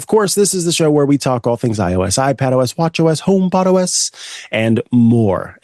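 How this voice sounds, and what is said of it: Voice sounds a little off. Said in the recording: “My voice is a little off”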